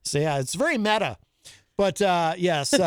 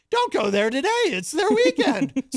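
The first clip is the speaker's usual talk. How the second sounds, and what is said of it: Imitates another person's voice. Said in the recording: “Or as Gonzo would say when he does his ... impression ... So that's my impression of Gonzo's impression of me.”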